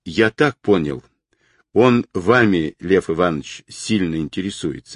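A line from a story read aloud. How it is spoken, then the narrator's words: Plain. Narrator (Russian): ответил Мишка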